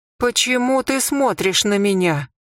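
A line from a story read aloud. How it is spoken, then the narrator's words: Whimpering. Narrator (Russian): захныкала Хенет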